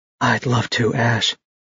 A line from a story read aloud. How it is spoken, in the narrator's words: she said softly